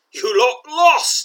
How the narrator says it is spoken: he roars

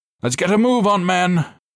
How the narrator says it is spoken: Clay cried

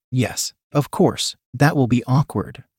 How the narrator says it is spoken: answered

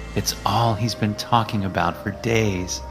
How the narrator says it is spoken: she sighed

